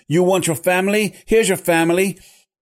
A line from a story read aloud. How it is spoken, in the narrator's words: he shouted